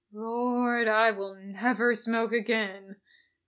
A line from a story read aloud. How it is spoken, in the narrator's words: moaned